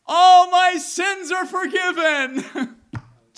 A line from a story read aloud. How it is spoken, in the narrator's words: cried aloud